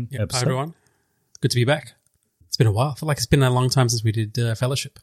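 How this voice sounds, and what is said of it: Very nasal, congested voice. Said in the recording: “I got a very nasally voice because I've come down with a bit of a Gollum fever.”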